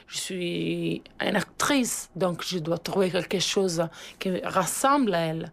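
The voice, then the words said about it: Pleasant foreign accent speaking French. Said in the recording (French): “Belle voix ... Elle parle très, très bien français maintenant ... avec un accent vraiment très agréable”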